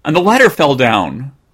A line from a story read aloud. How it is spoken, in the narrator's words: cried Jimmy